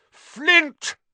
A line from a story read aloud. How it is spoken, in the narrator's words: Wood bellowed at the Slytherin captain